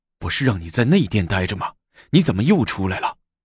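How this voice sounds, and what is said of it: Quiet, hushed voice. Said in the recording (Chinese): “小声”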